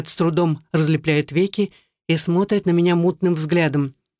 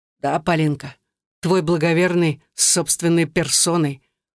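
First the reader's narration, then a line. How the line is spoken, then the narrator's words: Hoarse croak. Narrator (Russian): хрипло каркает Андрей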